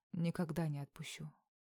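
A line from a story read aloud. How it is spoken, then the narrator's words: Spoken close to ear. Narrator (Russian): поднялся к уху ... проговорил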